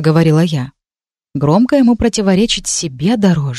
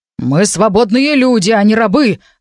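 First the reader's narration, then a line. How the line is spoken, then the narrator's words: Old man growling. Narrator (Russian): рыкнул дед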